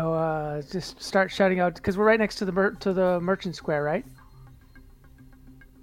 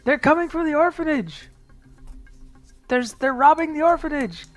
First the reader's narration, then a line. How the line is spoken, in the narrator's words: shout out saying